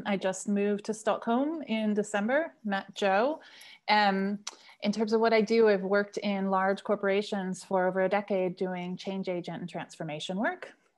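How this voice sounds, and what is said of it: American accent. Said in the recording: “you can probably hear from my accent. I'm American.”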